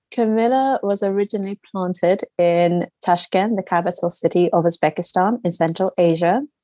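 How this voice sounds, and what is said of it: London accent. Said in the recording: “As you can hear by my accent, I live in London.”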